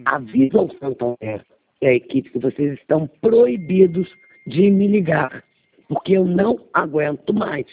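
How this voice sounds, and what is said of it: Hoarse, rough voice. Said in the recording (Portuguese): “A voz está com muita estática ... tô rouca”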